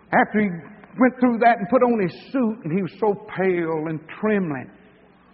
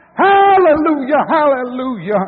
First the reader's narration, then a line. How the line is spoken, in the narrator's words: she cried out